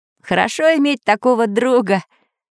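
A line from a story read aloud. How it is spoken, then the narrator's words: Laughing. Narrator (Russian): засмеялся Самоделкин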